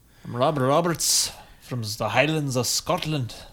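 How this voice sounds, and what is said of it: Scottish accent, Sean Connery impression. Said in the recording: “Oh, hey, that's not bad. ... that might be my best accent. ... It's my Sean Connery. ... Whatever it is, it sounds perfect.”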